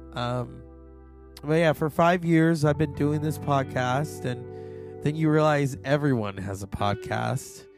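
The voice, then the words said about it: Hoarse voice. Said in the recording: “my voice is not 100%... it's still kind of parched, or not parched, just hoarse”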